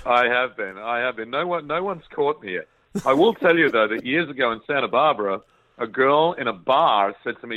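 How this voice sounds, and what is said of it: Australian accent. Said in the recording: “the man with the best Australian accent of anybody I know”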